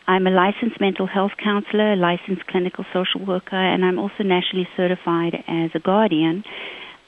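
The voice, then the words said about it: Southern African English accent. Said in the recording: “You'll hear by my accent that I actually am a naturalized American ... I actually was born in Zimbabwe, grew up in South Africa”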